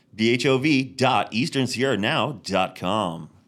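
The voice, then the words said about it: Announcer-style radio voice. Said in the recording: “That's my radio voice.”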